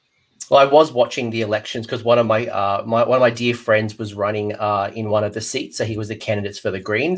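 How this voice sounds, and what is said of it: Australian accent with posh British tinge. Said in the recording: “posh British accent starting to come through my Aussie twang”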